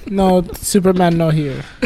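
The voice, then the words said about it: Put-on Russian accent. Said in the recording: “She's Russian... That was a Russian accent.”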